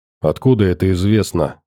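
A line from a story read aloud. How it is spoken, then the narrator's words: Plain. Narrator (Russian): спросил я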